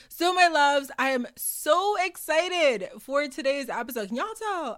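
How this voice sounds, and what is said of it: Yelling, loud excited speech. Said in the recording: “I'm yelling. That's how y'all can tell when I'm excited.”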